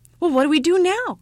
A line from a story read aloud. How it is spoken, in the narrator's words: cried the ugly child